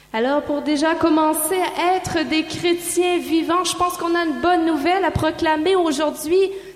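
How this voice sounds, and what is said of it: Noticeable foreign accent. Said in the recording (French): “vous avez déjà remarqué un petit peu leur accent, hein? On va vite passer au-dessus de cet accent-là”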